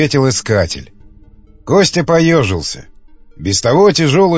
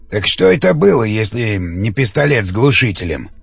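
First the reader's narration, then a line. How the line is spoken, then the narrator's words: Plain question. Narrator (Russian): спросил Андрей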